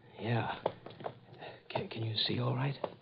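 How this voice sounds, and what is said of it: Whispering. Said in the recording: “What the devil are you whispering about?”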